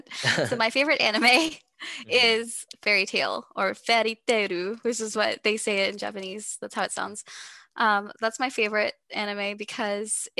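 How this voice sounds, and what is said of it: Texas accent. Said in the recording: “you can hear my Texas accent.”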